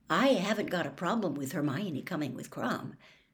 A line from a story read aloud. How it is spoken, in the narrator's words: said Harry quietly